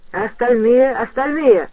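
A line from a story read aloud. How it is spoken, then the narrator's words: Shouting in chorus. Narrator (Russian): хором закричали в классе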